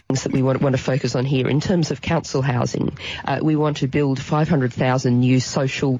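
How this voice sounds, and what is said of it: Australian accent. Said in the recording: “she is an Australian. She has an Australian accent”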